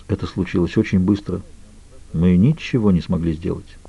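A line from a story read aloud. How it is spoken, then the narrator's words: Quietly spoken. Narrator (Russian): Доктор Саломон тихо произнес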